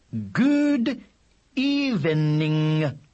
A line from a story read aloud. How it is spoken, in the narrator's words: he said loudly and clearly